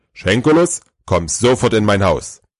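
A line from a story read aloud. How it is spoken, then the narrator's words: Loud and firm. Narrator (German): Der Weihnachtsmann spricht laut und unmissverständlich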